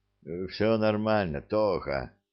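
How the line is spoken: Weak voice. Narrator (Russian): слабым голосом отвечает

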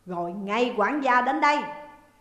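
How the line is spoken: Loud barked order. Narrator (Vietnamese): lớn tiếng quát

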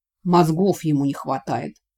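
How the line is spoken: Dismissive snort. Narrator (Russian): фыркнул Вик

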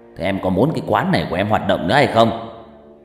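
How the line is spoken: Harsh threatening growl. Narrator (Vietnamese): tên thượng tá đã hạ gằn giọng dọa nạt

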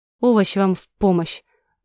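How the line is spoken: Gloomy. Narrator (Russian): мрачно пожелал нам дракон

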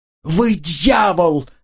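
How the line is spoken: Scream. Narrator (Russian): завопила она

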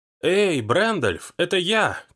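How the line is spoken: Shouting. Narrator (Russian): кричала

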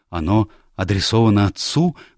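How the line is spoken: Agitated question. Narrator (Russian): взволнованно спросил он

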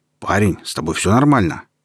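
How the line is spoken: Stunned question. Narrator (Russian): оторопевшим голосом спросил мой новый знакомый

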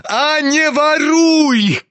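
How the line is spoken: Shout choking with rage. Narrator (Russian): крикнул Ганя, чуть не захлебываясь от злости

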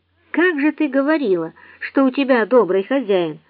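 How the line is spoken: Sudden tearful exclamation. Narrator (Russian): вдруг воскликнул, проглотив слезы, подступившие к горлу

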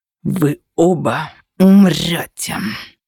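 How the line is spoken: Growling. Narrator (Russian): зарычал Анубис

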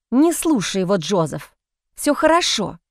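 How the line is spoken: Hissed. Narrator (Russian): прошипела Джейн

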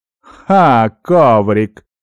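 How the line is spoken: Short laugh. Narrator (Russian): хохотнул Нуар

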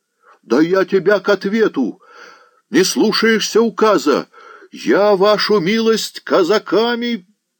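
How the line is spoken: Loud yelling. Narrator (Russian): Подстароста так орал, что шум в погребке несколько утих

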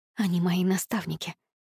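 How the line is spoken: Whispered. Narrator (Russian): прошептала я

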